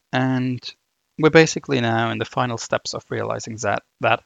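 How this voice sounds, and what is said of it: German accent. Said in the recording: “there's my, my German accent coming through”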